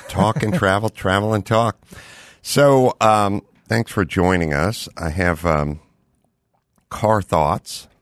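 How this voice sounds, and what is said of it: Slightly worn, off voice. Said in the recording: “my voice is a little wanky. I've been traveling and talking and traveling.”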